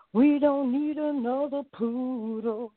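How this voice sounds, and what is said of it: Sung imitation of another person's voice. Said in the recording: “I play Tina Turner Dog ... and I sing ... It's like my impersonation.”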